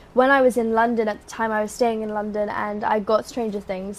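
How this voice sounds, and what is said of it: British accent. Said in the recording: “we hear the accent ... No one talks like that in Orlando ... I got my British accent there”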